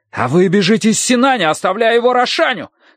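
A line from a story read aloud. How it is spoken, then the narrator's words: Furious shout. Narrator (Russian): крикнул лучник, маленький разъяренный человек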